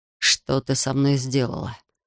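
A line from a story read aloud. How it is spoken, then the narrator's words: Groaning. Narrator (Russian): простонал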